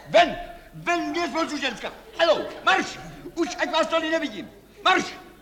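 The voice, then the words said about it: Shouting loudly. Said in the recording (Czech): “Nekřičte.”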